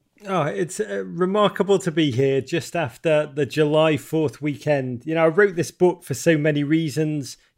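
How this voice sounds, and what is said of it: English Liverpool accent. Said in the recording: “Your listeners can probably tell by my accent that I'm not from the United States ... I grew up in Liverpool, England”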